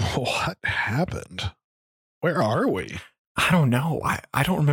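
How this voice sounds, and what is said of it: Usual voice. Nothing is said of it.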